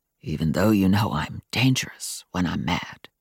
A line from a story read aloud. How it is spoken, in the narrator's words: Adam said in a whisper